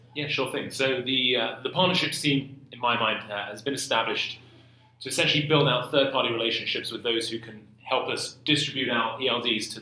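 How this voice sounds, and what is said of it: Speaks with a noticeable accent. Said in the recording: “It's always the beard or the accent that tend to get the attention.”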